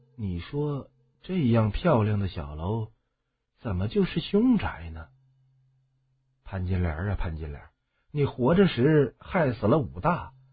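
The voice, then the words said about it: Quiet, hushed muttering. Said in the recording (Chinese): “小声”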